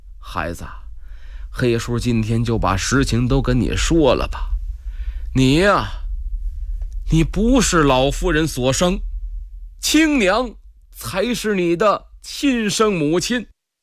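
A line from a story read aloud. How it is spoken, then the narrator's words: Old steward, lowered voice. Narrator (Chinese): 老管家，压低了嗓门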